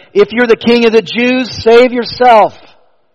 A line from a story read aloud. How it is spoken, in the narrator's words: They called out to him